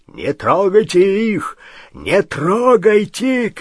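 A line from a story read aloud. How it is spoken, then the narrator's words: Shouting. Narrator (Russian): кричал он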